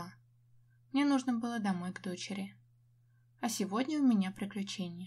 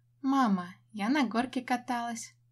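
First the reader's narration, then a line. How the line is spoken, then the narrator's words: Joyful announcement. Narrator (Russian): радостно сообщает Настя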